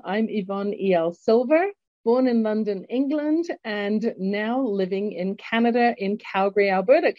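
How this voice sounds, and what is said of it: English accent. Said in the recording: “you recognize my English accent.”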